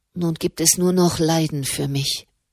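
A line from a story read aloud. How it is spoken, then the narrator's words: Murmur. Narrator (German): murmelte sie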